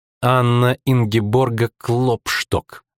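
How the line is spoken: Insolent, clipped. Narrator (Russian): нагло процедила она

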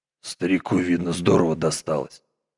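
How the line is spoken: Muttering to himself. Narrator (Russian): пробормотал он про себя

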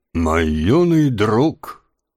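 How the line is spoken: Solemn old man. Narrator (Russian): торжественно произнес старик

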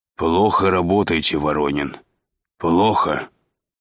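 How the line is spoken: Hoarse. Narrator (Russian): сипло сказал шеф

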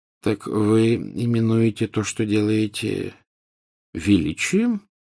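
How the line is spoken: Gentle question. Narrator (Russian): мягко спросил Дамблдор

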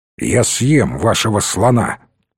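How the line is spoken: Almost rude answer. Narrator (Russian): почти грубо ответил Муньос

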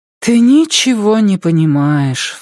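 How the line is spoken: Sighing. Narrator (Russian): вздохнула Бленда

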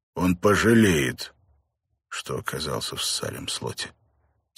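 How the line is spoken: Quiet reply. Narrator (Russian): тихо ответил Бен

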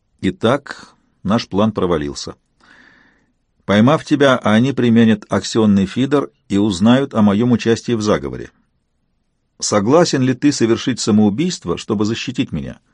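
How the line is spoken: Flat, colorless tone. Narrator (Russian): Все это он высказал мне с непроницаемым лицом, тем же бесцветным тоном

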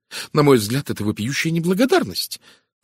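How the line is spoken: Indignant exclamation. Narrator (Russian): возмущенно воскликнула жена доктора Танёса

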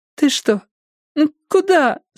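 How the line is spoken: Confused whimpering. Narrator (Russian): скулила Стефани, не понимая, что происходит

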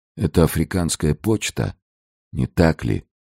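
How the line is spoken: Barely audible question. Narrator (Russian): Атос едва слышно спросил

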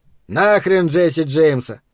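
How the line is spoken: Muttering. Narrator (Russian): пробурчал Эд

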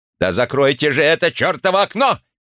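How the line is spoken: Barked. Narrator (Russian): рявкнул Чисхолм

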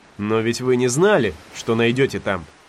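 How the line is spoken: Plain. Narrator (Russian): ответил Гатлинг

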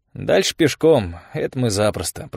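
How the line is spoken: Muttered. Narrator (Russian): пробормотал он

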